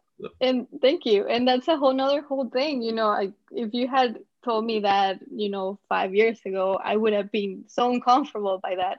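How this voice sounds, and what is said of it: Heavy accent. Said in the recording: “you have a heavy accent”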